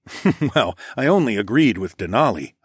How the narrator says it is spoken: I chuckled

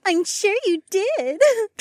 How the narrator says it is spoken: Trina giggled

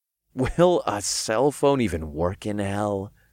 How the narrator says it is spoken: I chuckled

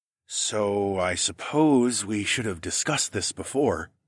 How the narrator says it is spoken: I said in a low voice

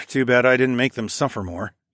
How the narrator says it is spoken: I sighed, with just the right amount of gallows humor coloring my voice

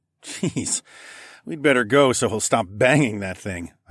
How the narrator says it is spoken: I chuckled

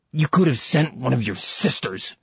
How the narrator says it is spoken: he spat that hated word

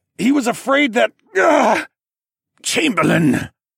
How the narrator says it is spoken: Siskorn finally managed to croak out through his painful-sounding throat

